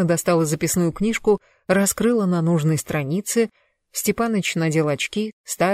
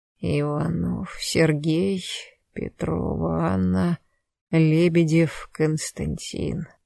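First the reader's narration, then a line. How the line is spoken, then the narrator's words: Muttering. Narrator (Russian): бормотал он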